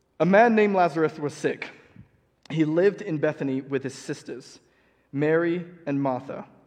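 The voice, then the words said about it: Half-fake British accent. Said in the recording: “listen to my half-fake British accent and getting words wrong”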